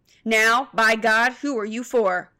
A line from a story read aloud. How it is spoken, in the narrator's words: shouted Murphy